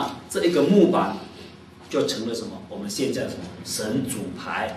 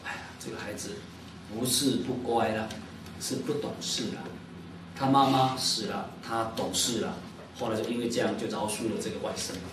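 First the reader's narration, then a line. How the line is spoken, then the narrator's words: Moved, softened uncle. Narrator (Chinese): 他舅舅本来很生气的 就被他感动了，说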